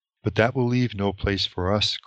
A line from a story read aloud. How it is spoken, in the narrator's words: cried Pippin in dismay